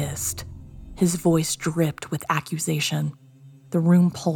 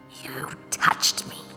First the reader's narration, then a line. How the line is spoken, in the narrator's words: hissed